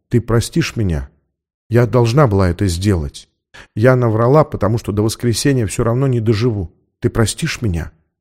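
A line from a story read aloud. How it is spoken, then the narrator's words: Whisper. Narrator (Russian): прошептала она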